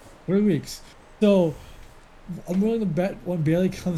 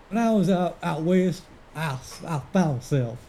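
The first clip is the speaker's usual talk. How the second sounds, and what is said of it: Put-on cowboy twang accent. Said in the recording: “a little twang in his little sound ... That's a really good cowboy accent, actually. ... you didn't do too bad there”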